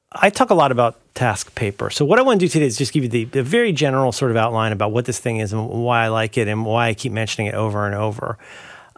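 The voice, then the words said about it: Tired, hoarse voice. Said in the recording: “I'm tired and I'm getting hoarse.”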